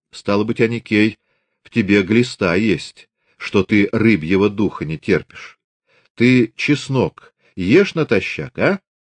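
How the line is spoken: Calm, thoughtful. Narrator (Russian): раздумчиво, спокойно говорил

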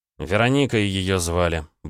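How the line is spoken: Gruff mutter. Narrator (Russian): буркнул Андрей

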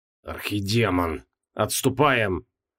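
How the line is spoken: Strained choked voice. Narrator (Russian): сдавленным голосом произнес

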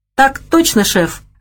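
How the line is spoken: Laughing. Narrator (Russian): рассмеялся Стив

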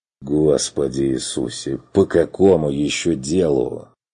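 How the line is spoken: Suffering groan. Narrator (Russian): страдальчески простонал Керн

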